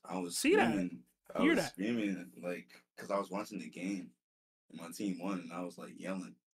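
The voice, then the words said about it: Hoarse, strained voice. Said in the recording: “you low energy today ... I lost my voice. ... I woke up today with a sore throat.”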